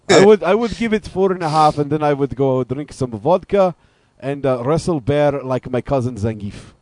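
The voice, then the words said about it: Put-on Russian accent. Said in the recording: “That was a good Russian accent you had going there ... It is hard to keep Russian accent for a long time”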